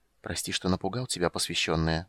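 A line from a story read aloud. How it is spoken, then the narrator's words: Quiet whisper. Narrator (Russian): сказал он негромким шепотом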